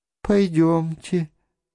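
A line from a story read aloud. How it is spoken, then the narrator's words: Sighing. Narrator (Russian): сказала она, вздохнув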